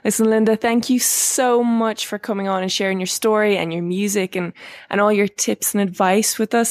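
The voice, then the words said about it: Irish accent. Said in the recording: “lovely Irish accent”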